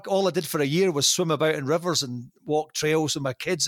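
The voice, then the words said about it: Scottish accent. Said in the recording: “a different accent ... I was the first Scottish guy to do it over here”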